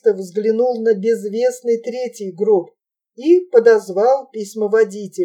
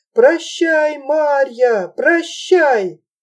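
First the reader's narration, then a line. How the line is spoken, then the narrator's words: Frenzied yelling. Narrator (Russian): Через загородку неистово орал черкес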